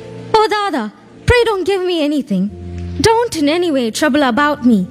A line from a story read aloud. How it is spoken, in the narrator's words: Radhan fell at his feet and cried